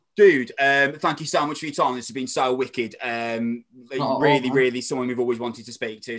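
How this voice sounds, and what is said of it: Strong regional accent. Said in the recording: “I've got a really strong accent as well”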